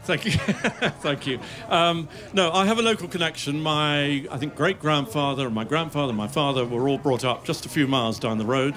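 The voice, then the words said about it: English accent. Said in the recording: “you can hear from my accent, I was brought up in England”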